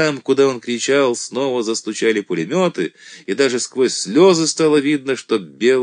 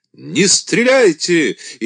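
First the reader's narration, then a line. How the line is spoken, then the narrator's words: Repeated shout. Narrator (Russian): еще раз крикнул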